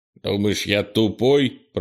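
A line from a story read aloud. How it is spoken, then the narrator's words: Grumbling. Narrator (Russian): проворчал он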